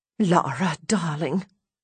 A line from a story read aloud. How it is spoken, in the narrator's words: Mum sighs